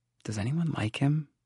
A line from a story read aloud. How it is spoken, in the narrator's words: She murmured